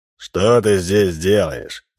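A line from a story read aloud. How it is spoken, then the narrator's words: Stern question. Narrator (Russian): строго спросил Минц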